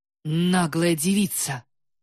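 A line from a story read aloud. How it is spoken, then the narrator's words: Loud mutter. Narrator (Russian): громко пробормотала Жуя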